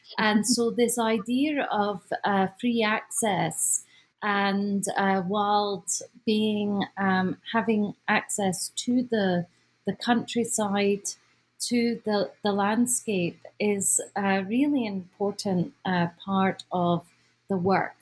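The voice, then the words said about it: Scottish accent. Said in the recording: “I have a Scottish accent.”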